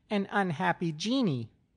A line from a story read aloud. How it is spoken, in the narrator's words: she piped in a high treble